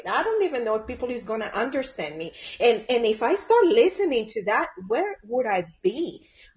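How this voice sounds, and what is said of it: Speaks with an accent. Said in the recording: “my accent”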